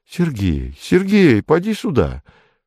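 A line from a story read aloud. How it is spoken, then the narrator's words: Frightened, serious, tender call. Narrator (Russian): Ольга вдруг испугалась и серьезно и ласково позвала его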